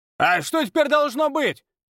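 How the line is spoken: Shouted from a crowd. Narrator (Russian): выкрикнул кто-то из толпы

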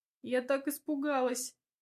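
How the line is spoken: Sobbing. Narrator (Russian): всхлипывает Надя

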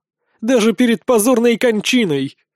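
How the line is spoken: Loud laughter. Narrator (Russian): Сехмет начинает смеяться на весь зал

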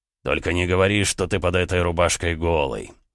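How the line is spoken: Amused snort. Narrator (Russian): хмыкнул Эдуард

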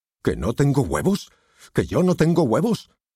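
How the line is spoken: Shouted. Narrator (Spanish): gritó

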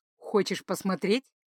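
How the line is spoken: Knowing snort. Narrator (Russian): понимающе хмыкнул он

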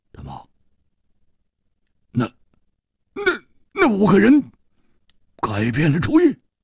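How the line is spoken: Hoarse. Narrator (Chinese): 蝴蝶花哑声说

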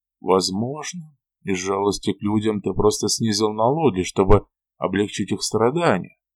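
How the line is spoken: Muttered. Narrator (Russian): пробормотал я

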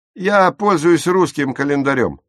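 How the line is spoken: Irritable snap. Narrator (Russian): огрызнулся Курт

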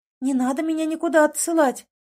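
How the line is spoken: Pleading. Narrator (Russian): взмолилась она

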